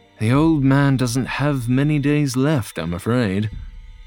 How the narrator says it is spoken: John sighed and admitted

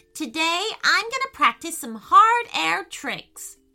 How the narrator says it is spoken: exclaimed Payton

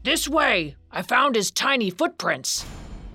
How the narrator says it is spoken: In the distance, he heard a man's voice shouting

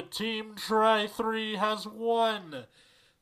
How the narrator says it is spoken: the arena announcer shouts with great passion

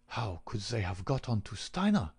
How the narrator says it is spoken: He muttered

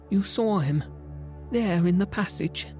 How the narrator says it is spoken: cried

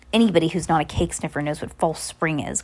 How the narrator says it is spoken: Carmelita said in a scornful voice

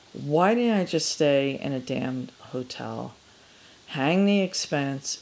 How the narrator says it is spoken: she sighed, her breath condensing in the cold air

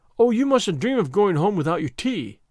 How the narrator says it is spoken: cried Anne in distress

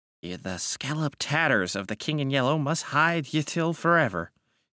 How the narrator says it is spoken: he muttered

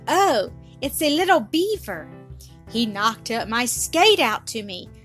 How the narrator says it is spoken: The little girl cried

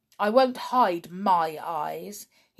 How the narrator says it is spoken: said sulkily

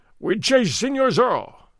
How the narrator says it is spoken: Gonzales cried

